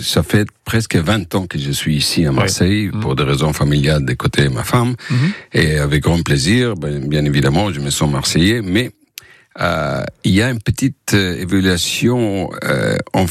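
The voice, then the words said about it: Distinctive foreign accent in French. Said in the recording (French): “avec son accent inimitable”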